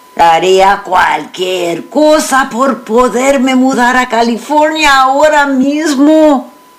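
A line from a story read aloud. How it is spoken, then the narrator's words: Exclaimed. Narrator (Spanish): exclamó mi padre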